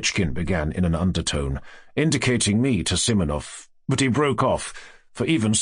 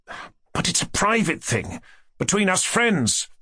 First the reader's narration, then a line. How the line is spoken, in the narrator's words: Fafichkin said crossly